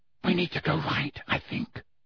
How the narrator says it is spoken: whispered Hermione

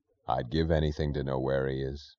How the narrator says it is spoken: he said, his voice low

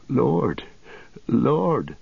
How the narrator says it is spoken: began Merry brokenly

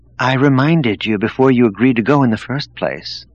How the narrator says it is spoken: noted dryly

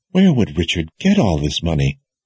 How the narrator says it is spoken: whispered

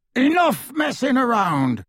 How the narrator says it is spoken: snarled Moody

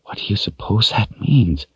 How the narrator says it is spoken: she whispered, as if the dead might hear her

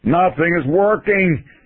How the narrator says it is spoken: Feynman yelled at us

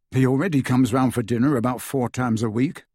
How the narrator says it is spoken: said Harry

